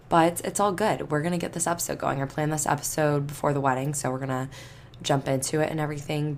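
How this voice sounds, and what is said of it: Slightly hoarse voice. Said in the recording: “excuse my voice. It's not gone, but it's definitely not as normal as it normally is. So I probably sound a little hoarse”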